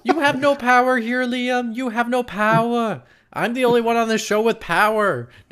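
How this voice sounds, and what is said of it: Terrible made-up accent. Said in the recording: “Was that an accent you just did? ... Terrible made-up accent every single time.”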